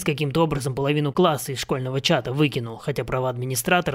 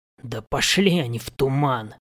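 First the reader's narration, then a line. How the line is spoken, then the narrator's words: Growl. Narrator (Russian): прорычал я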